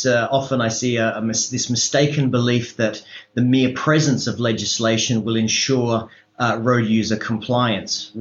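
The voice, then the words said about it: Australian English accent. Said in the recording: “In case you can't tell from my accent, I am from Australia”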